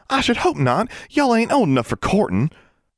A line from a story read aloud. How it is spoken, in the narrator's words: Constance exclaimed